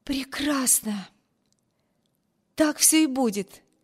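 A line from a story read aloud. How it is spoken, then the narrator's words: Joyful girl's exclamation. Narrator (Russian): воскликнула девушка, сияющим лицом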